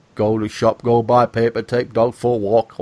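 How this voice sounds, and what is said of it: Imitated strong northern English accent. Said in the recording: “he should have a really strong northern accent, like, you know”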